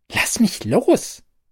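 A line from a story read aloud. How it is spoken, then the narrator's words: Hissed. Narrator (German): zische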